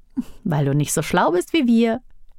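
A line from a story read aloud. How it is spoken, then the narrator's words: Giggling. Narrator (German): kicherte Aduma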